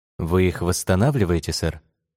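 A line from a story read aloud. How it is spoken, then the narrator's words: Plain. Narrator (Russian): спросил Роман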